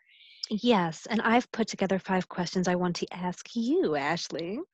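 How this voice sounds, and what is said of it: Evil wizard-like voice. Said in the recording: “why did I just sound like an evil wizard? ... Evil wizard. I don't know what kind of accent that was”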